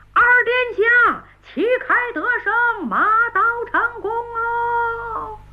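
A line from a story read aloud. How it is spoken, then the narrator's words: Soldiers cheering loudly. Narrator (Chinese): 小番们摇旗呐喊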